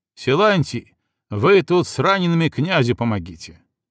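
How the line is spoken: Loud command. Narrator (Russian): громко приказал ближним ушкуйникам

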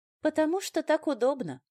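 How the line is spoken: Condescending explanation. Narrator (Russian): снисходительно пояснила я

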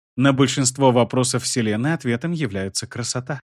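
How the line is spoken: Gentle. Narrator (Russian): мягко сказал Гармингар

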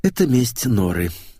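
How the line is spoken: Sigh. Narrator (Russian): вздохнул

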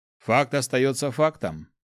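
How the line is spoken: Snort. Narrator (Russian): хмыкнул Нерба

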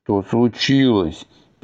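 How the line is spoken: Shouting over crowd noise. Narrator (Russian): перекрикивая общий гомон забурлившего племени, воскликнул Адхи

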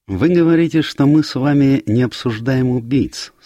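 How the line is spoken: Plain. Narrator (Russian): сказал Пуаро

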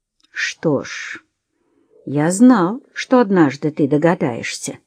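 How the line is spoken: Calm. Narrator (Russian): спокойно произнес Уэсли

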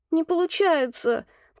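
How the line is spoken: Moaning. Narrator (Russian): простонала я

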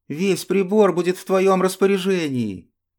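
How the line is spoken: Joyful. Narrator (Russian): радостно сказал Зен

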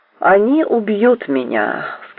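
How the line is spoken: Plain. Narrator (Russian): сказал он

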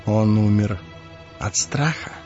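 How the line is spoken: Whispered question. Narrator (Russian): шепотом спросил Ларт

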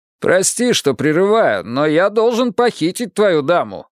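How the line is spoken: Shouted reply. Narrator (Russian): прокричал в ответ старший инспектор

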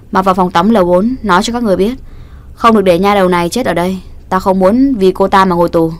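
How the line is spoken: Loud call. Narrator (Vietnamese): Đường Hạo lớn tiếng hô

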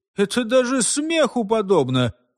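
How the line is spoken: Objection, slight nasal laugh. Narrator (Russian): возразил Епифан и засмеялся немного в нос

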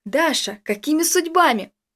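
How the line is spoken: Exclaiming. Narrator (Russian): воскликнул я

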